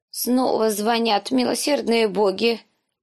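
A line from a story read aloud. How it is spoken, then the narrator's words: Old woman groaning. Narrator (Russian): простонала старуха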